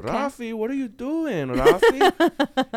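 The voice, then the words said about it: Heavy Honduran accent. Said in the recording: “she's from Honduras, so she had this like heavy accent.”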